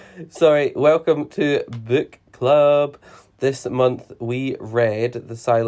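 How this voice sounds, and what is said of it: Usual voice. Nothing is said of it.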